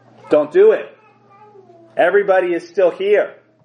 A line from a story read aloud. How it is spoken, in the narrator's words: Paul interrupts him, yelling